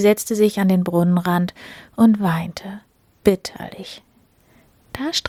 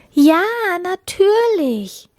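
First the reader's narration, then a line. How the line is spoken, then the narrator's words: Happy call. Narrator (German): rief die Prinzessin froh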